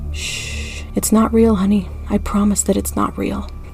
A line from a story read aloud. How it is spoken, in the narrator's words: gently whispered in my ear